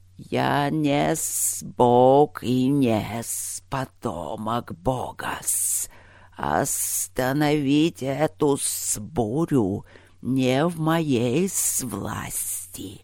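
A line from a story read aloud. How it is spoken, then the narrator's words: Booming spirit reply. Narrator (Russian): прогудел в ответ стихийный дух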